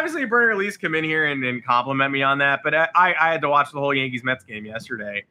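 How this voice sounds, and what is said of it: Usual voice. Nothing is said of it.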